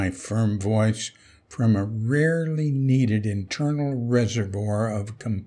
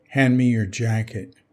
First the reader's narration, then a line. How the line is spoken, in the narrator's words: said gravely